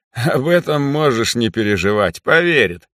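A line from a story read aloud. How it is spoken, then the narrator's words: Mocking. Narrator (Russian): насмешливо произнес он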